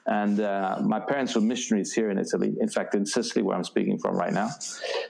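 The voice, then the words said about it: Vague British accent. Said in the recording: “You might detect a vague British accent there.”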